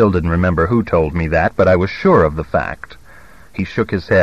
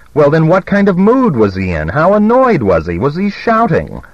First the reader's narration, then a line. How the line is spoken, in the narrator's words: I said impatiently